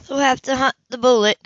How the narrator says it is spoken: Monty groaned

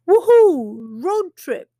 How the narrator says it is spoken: exclaims Bhima

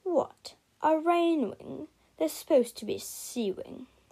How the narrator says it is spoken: snarled the Nightwing

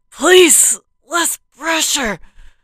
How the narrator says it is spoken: pleaded

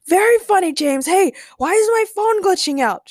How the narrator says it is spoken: shouted Ray

